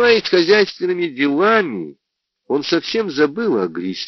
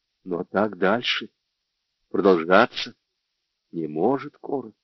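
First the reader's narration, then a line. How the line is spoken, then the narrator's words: Tender. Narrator (Russian): сказал Джордж, нежно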